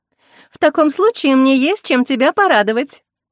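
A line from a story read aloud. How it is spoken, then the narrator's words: Cheerful. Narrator (Russian): весело заявила Зарина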